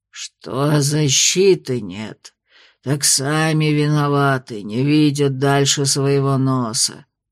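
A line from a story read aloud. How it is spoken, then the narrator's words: Displeased creaky spirit voice. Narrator (Russian): недовольно проскрипел древесный дух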